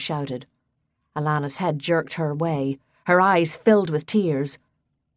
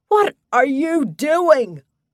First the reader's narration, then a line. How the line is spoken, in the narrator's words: Danny yelled